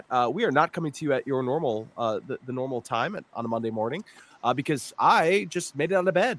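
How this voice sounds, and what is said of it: Sick, under-the-weather voice. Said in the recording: “I have, Kurt, not had a good 72 hours... Barely leaving my house with the crud or whatever it is. You can hear it in my voice.”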